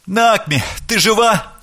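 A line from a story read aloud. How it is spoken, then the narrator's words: Shouting, near tears. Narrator (Russian): крикнул он, чуть не плача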